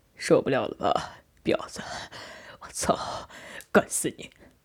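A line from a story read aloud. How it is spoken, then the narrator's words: Growing quieter. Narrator (Chinese): 渐渐低声说道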